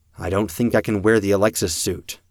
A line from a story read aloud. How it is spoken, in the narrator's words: I said